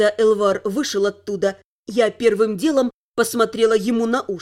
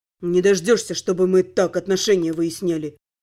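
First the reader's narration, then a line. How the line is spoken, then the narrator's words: Grumbled reply. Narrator (Russian): проворчал в ответ Тёрн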